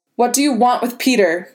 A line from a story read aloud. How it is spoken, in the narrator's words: May snapped